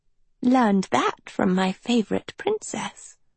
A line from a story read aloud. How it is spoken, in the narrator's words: Sophie said softly